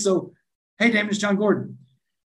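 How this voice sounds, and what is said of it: Imitated slight New York accent. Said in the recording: “It sounds like ... got this little New York accent a little bit”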